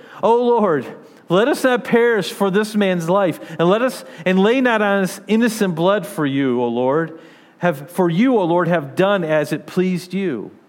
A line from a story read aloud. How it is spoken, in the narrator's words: they called out to the Lord